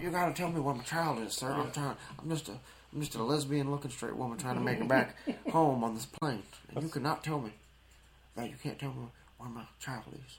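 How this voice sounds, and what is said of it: Imitates another person's voice. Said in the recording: “That's pretty good impersonation. ... I do really good Jodie Foster.”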